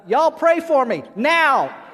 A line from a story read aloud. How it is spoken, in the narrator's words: the little boy suddenly yells out